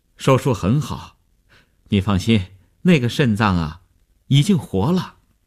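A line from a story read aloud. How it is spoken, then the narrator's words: Relieved, smiling. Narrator (Chinese): 医生 放心地笑笑说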